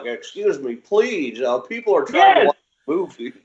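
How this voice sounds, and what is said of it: Mocking uptight white guy voice. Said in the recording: “that white dude impersonation”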